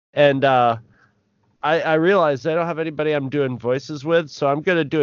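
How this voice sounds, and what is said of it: Usual voice. Nothing is said of it.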